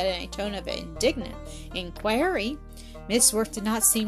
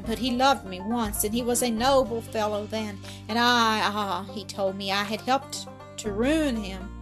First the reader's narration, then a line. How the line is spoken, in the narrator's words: she sighed